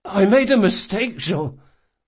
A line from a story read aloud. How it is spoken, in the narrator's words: Locke croaked in desperation